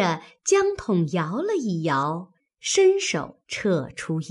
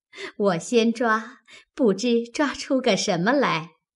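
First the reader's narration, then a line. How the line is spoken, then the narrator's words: Laughing. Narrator (Chinese): 宝钗便笑道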